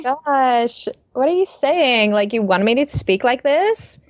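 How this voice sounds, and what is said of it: Put-on American Valley Girl accent. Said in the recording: “I think you had to do like the whole like Valley Girl thing... that's pretty good”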